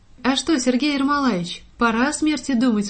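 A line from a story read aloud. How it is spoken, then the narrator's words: Laughing question. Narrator (Russian): спросила я его, смеясь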